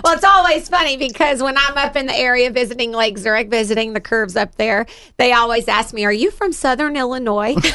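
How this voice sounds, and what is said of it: Southern US accent. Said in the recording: “The Southern accent. ... They just assume it's a Southern Illinois accent, not necessarily an Alabama accent.”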